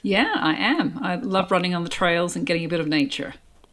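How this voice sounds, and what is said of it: Australian accent. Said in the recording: “you were born in Australia... hence the accent.”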